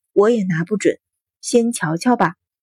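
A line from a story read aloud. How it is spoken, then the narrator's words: Sighing. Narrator (Chinese): 阮云欢 叹道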